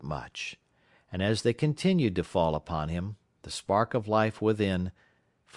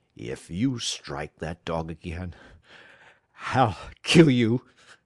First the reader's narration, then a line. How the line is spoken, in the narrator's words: he at last managed to say in a choking voice